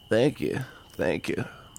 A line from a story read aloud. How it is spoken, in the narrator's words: mumbled the old man